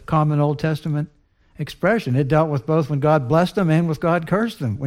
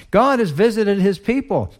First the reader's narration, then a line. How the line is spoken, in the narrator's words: They exclaimed